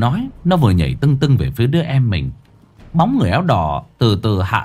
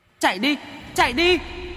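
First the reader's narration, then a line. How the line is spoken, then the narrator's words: Child screaming. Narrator (Vietnamese): Đứa bé còn lại hét lên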